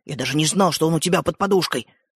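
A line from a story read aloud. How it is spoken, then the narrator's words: Whispered. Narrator (Russian): шепотом продолжил Родька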